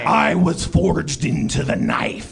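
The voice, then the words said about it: Powerful, shaky throaty creature voice. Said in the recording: “in a powerful voice ... doing a very wonderful beard shake when he does this creature's voice ... It's more of a throat shake.”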